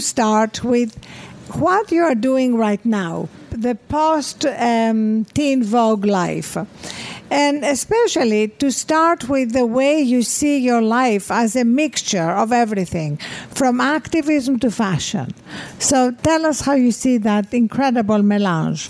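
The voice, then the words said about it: Beautiful-sounding accent. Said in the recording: “Your accent is so beautiful.”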